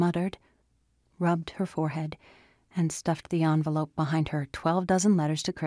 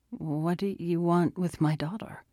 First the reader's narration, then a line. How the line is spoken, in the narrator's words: She slurred